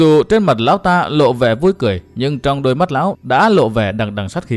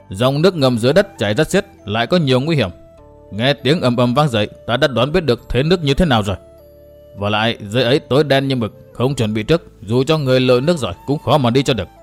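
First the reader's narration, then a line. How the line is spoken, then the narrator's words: Cold, sinister. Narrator (Vietnamese): Thiên Độc Cốc chủ bỗng lộ sắc mặt nham hiểm và hung ác, lão lạnh lùng bảo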